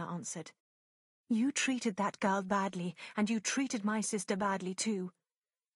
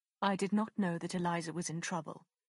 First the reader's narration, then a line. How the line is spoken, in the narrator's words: Willoughby said quickly